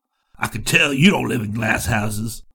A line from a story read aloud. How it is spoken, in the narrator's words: he chuckled